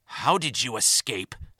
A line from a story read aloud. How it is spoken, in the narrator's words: spat the annoyed Romulan